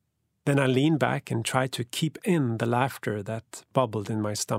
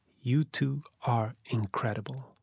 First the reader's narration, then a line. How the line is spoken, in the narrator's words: whispered